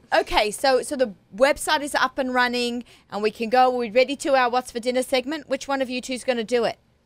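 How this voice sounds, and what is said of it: Australian accent. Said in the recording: “I didn't sound like an Aussie, even though the accent was an Aussie ... You're Australian to us ... I'm got the Australian accent.”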